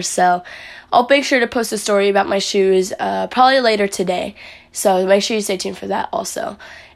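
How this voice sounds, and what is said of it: Raspy, strained voice. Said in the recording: “my voice is a little bit raspy ... I was yelling a lot ... I kind of had my voice lost yesterday ... My voice is just, like, really raspy.”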